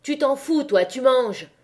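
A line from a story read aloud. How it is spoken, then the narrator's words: Yelled angrily. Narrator (French): hurla Levaque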